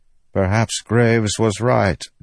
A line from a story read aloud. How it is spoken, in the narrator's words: Dukar said, rubbing his hands together nervously